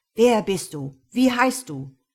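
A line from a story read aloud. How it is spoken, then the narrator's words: Loud demanding question. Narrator (German): Mit einer lautstarken Stimme fragte der Ladendetektiv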